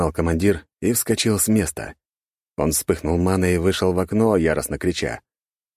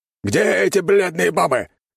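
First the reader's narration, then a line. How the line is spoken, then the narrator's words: Barked. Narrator (Russian): рявкнул он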